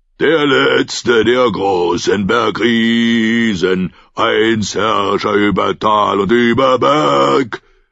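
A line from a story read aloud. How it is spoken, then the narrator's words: Roaring through snow. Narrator (German): brüllte durch den Schnee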